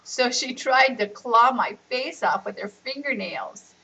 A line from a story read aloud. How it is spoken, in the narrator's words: Riaz laughed and said